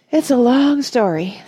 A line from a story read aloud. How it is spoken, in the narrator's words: sighed the cricket